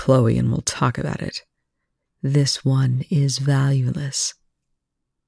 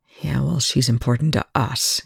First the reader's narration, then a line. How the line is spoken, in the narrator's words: Young growled